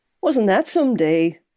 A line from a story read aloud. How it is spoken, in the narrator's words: she said brightly